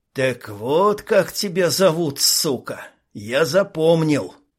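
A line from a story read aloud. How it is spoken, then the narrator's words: Through gritted teeth. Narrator (Russian): Процедил сквозь зубы Ник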